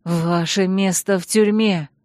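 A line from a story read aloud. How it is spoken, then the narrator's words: Hoarse, strained voice. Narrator (Russian): прохрипела я осевшим от крика голосом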